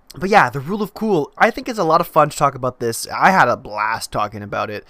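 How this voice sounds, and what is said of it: Stuffed-up, congested voice. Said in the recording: “my voice is a little bit stuffed up, I'm a little bit sick”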